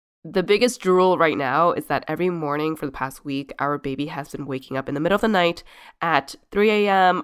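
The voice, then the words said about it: Sick-sounding voice. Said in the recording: “Our whole household is sick right now. You can probably hear it in my voice.”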